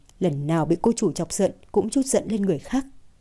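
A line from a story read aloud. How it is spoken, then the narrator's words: Relieved muttering. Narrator (Vietnamese): Thời Dũng mới thở phào một hơi, lẩm bẩm nói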